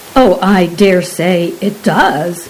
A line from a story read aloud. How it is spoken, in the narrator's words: replied her husband